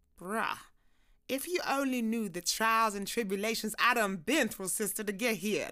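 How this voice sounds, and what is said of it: Put-on accent. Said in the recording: “away from the accent”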